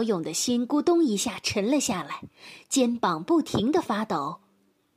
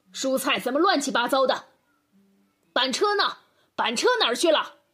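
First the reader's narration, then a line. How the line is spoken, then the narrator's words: Angry roar from afar. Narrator (Chinese): 爸爸的怒吼声突然从院子里传了过来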